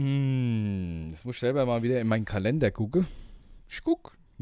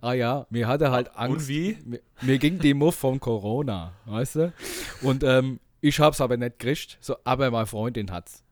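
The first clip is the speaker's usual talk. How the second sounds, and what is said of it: Put-on Hessian dialect. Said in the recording (German): “auf Hessisch babbeln ... sobald wir anfangen, hessisch zu babbeln, verändern wir auch unsere Stimmen”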